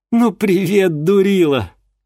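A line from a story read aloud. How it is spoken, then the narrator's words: Breathy exhale. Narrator (Russian): выдохнула тетка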